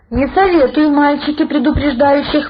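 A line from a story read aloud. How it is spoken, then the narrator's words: Smirking grunt. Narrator (Russian): хмыкнул Савелий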